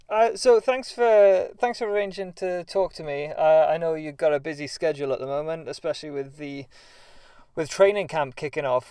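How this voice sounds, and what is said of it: British accent. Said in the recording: “I love this accent ... British accents”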